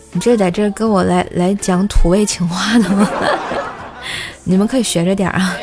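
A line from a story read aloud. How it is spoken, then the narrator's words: Startled, then loud laughter. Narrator (Chinese): 男一愣，然后哈哈大笑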